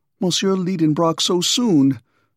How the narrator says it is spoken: cried poor Martha in great alarm

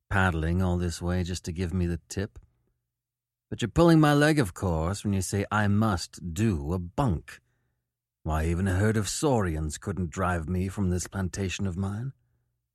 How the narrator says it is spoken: murmured

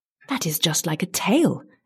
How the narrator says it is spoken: exclaimed David in surprise

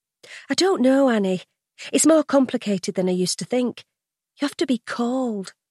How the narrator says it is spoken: she explains gently

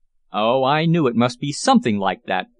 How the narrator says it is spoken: exclaimed in some vexation

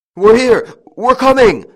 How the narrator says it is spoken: shouted the eldest, who was leading

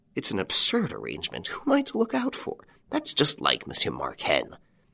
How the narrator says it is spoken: Inspector Delangle muttered

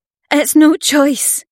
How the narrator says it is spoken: Fae cried

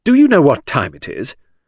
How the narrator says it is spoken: said Midge sternly

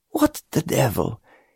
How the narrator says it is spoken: he began to mutter

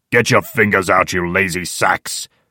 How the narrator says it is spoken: shouts the old man irritably

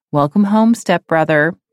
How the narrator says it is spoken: Vicky laughed

